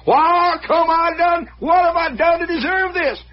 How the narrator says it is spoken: he's hollering

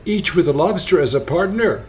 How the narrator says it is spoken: cried the Griffin

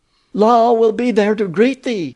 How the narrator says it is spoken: exclaimed the high priestess

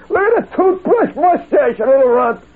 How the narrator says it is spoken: he was shouted down by the intellectuals of his day, led by Dr

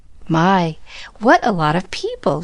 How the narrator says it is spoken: she was saying happily

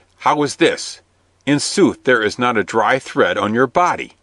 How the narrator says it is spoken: cried Will Stutely

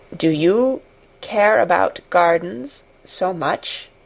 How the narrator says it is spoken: he said slowly

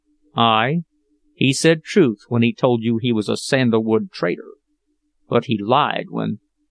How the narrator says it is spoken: Bill's brows lowered savagely as he muttered

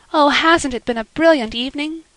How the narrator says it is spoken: sighed Anne

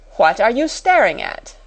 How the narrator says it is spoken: demanded Miss Minchin sharply

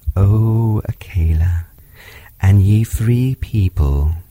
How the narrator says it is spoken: purred

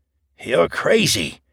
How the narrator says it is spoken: panted

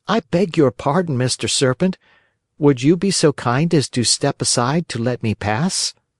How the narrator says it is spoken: Pinocchio, trying to feel very brave, said in a sweet, soothing voice

